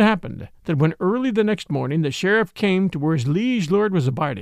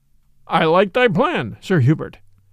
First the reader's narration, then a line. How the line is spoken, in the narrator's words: quoth the king merrily